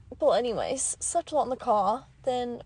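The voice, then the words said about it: Put-on British accent. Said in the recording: “why am I talking in a British accent?”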